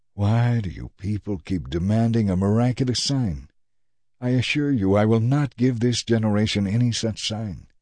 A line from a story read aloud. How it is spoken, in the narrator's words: he sighed deeply and said